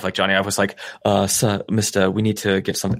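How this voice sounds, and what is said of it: Poor attempt at British accent. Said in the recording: “I can't do a British accent. ... That was really bad. ... That was rough, dude. ... That wasn't very good.”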